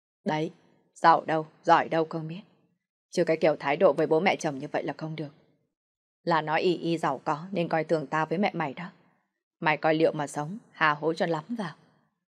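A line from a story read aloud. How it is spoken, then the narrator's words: Somewhat angry. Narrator (Vietnamese): Ông Hoàng giọng nói có phần giận dữ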